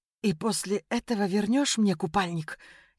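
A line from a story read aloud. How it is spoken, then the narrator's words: Stammering like a little girl. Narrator (Russian): Я запиналась, словно маленькая девочка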